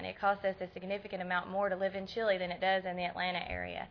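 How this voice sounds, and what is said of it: Strong Southern US accent. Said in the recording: “You can tell I'm from Tennessee from my accent, right? I don't know how Jason didn't get a southern accent, but mine is pretty strong.”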